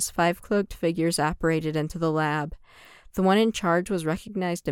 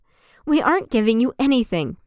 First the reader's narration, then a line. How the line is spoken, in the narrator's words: Michaela snapped